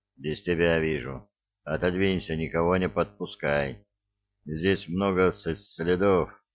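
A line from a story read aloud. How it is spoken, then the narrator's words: Dry command. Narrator (Russian): сухо велел Эраст Петрович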